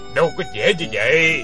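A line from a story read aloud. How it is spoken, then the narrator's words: Scornful, cold smile. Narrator (Vietnamese): Lão Trùm lái cá cười nhạt nói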